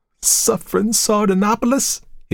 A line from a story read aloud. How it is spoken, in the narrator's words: he cried